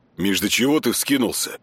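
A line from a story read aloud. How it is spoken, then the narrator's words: Calm reply. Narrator (Russian): Спокойно ответил Артем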